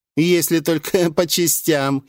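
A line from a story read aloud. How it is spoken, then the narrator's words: Giggling larva creature. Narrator (Russian): хихикнула лярва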